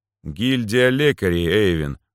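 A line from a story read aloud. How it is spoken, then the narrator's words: Tired explanation. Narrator (Russian): устало пояснил я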